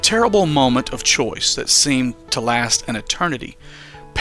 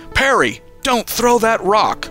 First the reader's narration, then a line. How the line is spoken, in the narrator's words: Uncle Sheo yelled